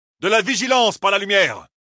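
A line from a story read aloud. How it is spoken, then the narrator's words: Shouted. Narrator (French): leur cria Rand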